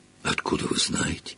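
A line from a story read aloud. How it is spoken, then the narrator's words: Astonished breath. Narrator (Russian): изумленно выдохнул Гарри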